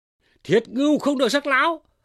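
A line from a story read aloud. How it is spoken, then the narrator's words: Shout from outside. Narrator (Vietnamese): Đới Tôn ở ngoài thét lên rằng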